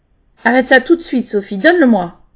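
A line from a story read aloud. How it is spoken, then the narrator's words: Harsh. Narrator (French): lui parler aussi durement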